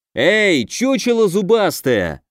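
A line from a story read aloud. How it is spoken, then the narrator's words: Yelled. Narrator (Russian): заорал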